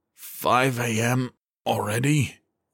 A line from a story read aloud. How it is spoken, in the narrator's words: he asked hoarsely